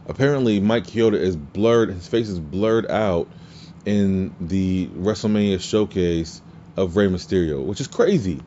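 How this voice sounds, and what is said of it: Strained voice that is giving out. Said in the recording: “I think I'm losing my voice.”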